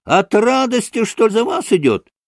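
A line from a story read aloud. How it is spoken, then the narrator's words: Shrill childlike yell. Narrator (Russian): завопил каким-то детским звонким голосом Колганов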